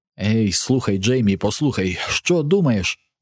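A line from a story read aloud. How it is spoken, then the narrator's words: Desperate exclamation. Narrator (Ukrainian): у розпачі вигукнув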